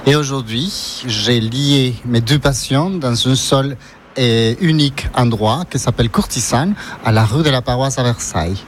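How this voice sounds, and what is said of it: Ecuadorian accent speaking French. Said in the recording (French): “j'ai un accent, je suis d'origine équatorienne”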